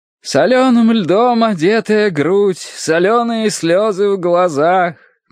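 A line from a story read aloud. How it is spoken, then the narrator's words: Chanted recitation. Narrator (Russian): нараспев читал Терренс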